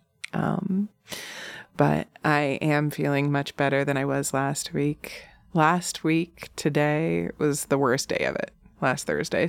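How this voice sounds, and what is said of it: Slightly nasal, congested voice. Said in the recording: “my voice is still not like 100%. As you can probably tell, I'm sure I'm still like, a little nasally.”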